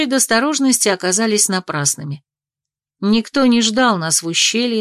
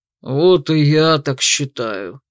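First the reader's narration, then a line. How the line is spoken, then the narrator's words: Grumbling. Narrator (Russian): ворчал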